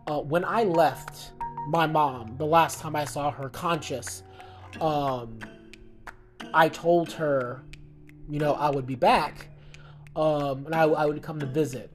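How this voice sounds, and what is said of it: Emotional voice. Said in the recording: “I'm getting emotional now”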